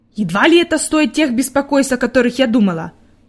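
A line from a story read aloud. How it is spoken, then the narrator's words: Grumbling mutter. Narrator (Russian): пробурчала она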